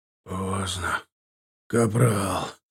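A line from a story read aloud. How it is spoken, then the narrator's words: Gurgling hoarse wheeze. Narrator (Russian): Булькая розовой пеной, скапливавшейся у уголков губ, прохрипел Ильдар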